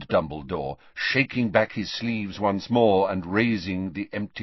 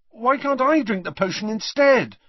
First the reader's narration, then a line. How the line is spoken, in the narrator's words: asked Harry desperately